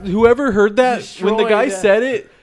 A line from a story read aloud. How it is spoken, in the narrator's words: the other person laughed like Eddie Murphy in The Nutty Professor